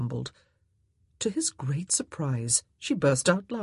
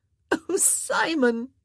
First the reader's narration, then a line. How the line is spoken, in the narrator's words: she gasped